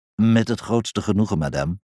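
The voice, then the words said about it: Polite male voice, foreign accent. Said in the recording (Dutch): “een mannenstem met een buitenlands accent, beleefd”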